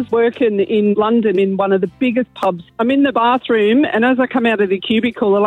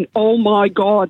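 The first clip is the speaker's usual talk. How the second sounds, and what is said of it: Thick Derry accent. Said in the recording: “in a really thick Derry accent”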